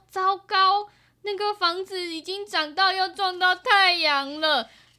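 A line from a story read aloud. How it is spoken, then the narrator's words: Shouting. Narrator (Chinese): 小勇就大叫说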